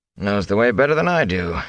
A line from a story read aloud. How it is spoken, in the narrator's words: he chuckled